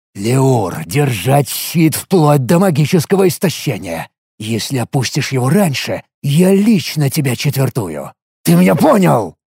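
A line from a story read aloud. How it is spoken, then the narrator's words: Angry hiss in ear. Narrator (Russian): Зло прошипел я ему на ухо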